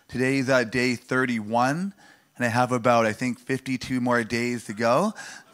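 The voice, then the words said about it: Deeper voice from a cough. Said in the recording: “I'm getting over a cough ... My voice sounds a little, I don't know, deeper than normal”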